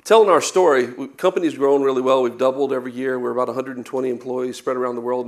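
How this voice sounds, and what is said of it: Non-local regional accent. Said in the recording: “As you can tell my accent, I'm not from around here.”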